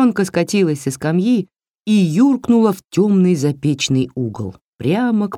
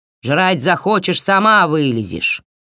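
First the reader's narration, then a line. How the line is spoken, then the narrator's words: Grumbling mutter. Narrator (Russian): буркнула Баба-яга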